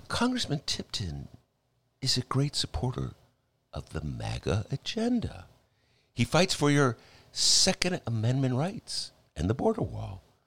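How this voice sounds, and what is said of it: Mock public radio reporter voice. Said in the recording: “I'm going to do it as if I were a WBEZ reporter.”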